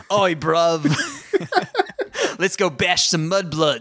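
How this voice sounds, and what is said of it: Terribly botched accent as Crabbe and Goyle. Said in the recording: “Crabbe and Goyle being like ... A terrible botching of an accent.”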